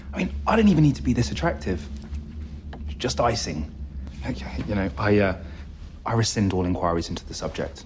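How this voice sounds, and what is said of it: British accent. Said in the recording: “a British accent”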